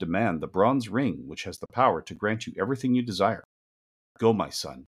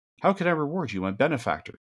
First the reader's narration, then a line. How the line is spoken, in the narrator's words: He cried